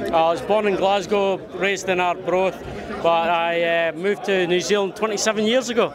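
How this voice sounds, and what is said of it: Scottish accent. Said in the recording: “you've got a Scottish accent. It's not a New Zealand accent. We can hear that.”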